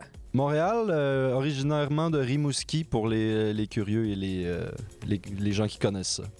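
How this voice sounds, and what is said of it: Québécois French accent. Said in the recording (French): “comme on peut l'entendre à ton accent, tu n'es pas originaire de France ou de Belgique”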